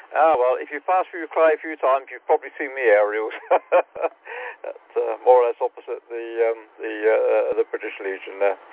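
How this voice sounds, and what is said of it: Devon accent, speaks a bit fast. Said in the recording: “it's my Devon accent, and just tend to speak just a little bit too fast”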